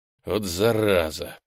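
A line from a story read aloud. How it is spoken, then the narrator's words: Mutter. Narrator (Russian): пробормотал я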